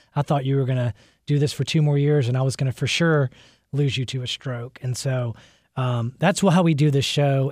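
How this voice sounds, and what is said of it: Choked-up emotional voice. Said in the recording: “a little choked up”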